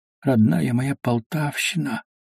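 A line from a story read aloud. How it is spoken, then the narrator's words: Sorcerer's whisper. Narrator (Russian): шептал колдун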